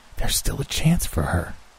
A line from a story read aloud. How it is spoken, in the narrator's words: said Granny in a stage whisper